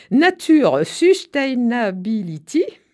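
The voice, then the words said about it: Exaggerated English accent. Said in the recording (French): “je m'excuse pour mon accent anglais parfait”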